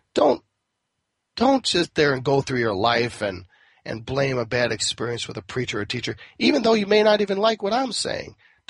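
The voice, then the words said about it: Raspy voice. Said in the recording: “if you don't like my raspy voice, well, it'll get better”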